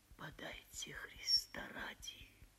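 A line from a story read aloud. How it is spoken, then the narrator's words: Quiet whisper. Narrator (Russian): Он тихо прошептал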